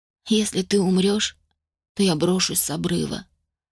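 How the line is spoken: Promise, quietly weeping. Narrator (Russian): пообещала ему и тихонько заплакала

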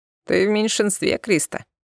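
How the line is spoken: Laughing. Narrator (Russian): рассмеялся Сунир

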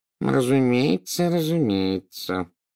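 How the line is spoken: Mumbling. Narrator (Russian): забормотал Горбин

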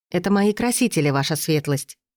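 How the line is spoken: Calm voice despite fear. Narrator (Russian): сказала я спокойно, хотя сердце колотилось где-то в горле

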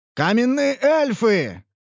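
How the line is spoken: Shouting. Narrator (Russian): прокричал Ханс

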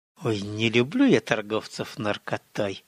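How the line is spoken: Hiss. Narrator (Russian): прошипела Готесса

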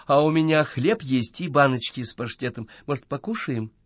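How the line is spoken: Timid suggestion. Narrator (Russian): робко предложила она

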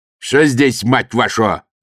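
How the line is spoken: Barked command. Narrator (Russian): рявкнул командир красноармейцев

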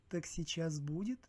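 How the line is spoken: Velvety voice. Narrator (Russian): бархатистым голосом произнесла Маха

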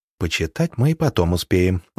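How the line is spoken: Tender smiling voice. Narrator (Russian): ласково улыбаясь, сказала

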